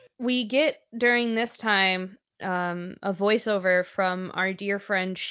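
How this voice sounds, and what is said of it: Usual voice. Nothing is said of it.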